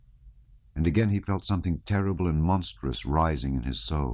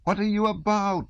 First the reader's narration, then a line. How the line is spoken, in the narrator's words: shouted Rostov, in an ecstasy of exasperation